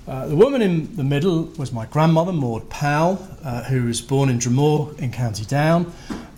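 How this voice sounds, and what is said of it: English accent. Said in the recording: “this guy with his English accent”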